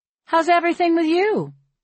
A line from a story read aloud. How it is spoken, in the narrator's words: I call down cheerfully